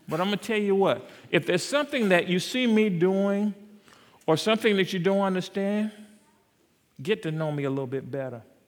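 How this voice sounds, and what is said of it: South Carolina accent. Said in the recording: “You might not like my South Carolina accent.”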